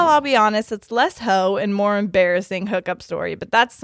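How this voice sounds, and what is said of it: Usual voice. Nothing is said of it.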